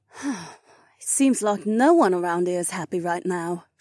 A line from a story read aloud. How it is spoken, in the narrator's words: Sienna sighed